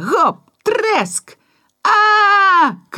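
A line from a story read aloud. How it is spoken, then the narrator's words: Shout. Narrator (Belarusian): крыкнуў Жора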